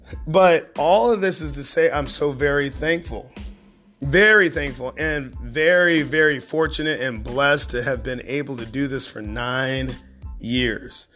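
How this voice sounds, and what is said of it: Worn, rough-sounding voice. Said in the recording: “my voice is terrible”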